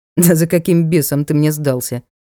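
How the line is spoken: Snort. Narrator (Russian): хмыкнул лорд

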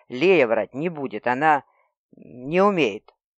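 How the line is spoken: Faltering, very unsure. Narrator (Russian): окончание фразы проговорил совсем уж неуверенно

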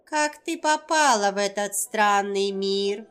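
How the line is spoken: Witch's creaky voice. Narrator (Russian): произнесла скрипучим голосом ведьма

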